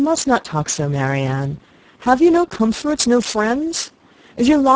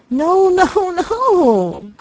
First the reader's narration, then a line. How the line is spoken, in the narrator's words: cried Marianne wildly